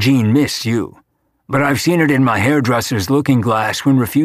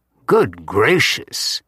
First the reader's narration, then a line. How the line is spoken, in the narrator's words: muttering